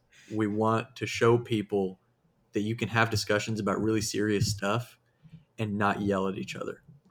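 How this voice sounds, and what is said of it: Southern US accent. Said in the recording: “I love your Southern accent... It kind of like broke out there all of a sudden”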